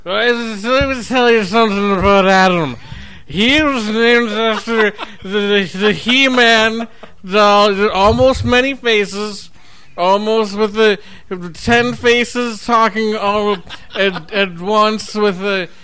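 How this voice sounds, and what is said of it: Intoxicated speech, imitates another person's voice. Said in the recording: “here's my impression of Rob. Giving a speech while he's on a bunch of Xanax and a bunch of scotch.”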